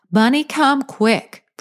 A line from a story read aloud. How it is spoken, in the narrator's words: Pris shouted